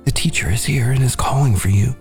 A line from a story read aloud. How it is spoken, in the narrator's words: She whispered